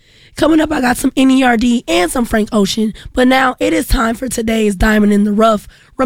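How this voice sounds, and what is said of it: Hoarse, fading voice. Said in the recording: “I am losing my voice”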